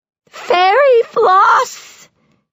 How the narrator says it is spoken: shrieks the little boy

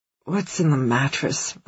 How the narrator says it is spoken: I mutter

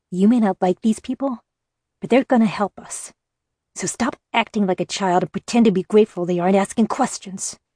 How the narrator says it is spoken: he snapped quietly enough for only me to hear

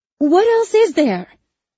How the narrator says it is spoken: Isabel snaps

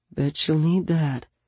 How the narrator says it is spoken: he murmured

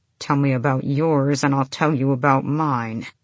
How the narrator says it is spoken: he said through gritted teeth

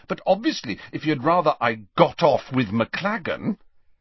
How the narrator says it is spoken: said Hermione angrily

